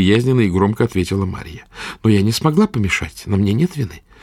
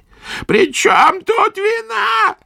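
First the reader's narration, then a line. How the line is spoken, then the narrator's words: Old woman's cracked, creaky howl. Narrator (Russian): закричала старуха треснувшим, скрипучим воем, взвыла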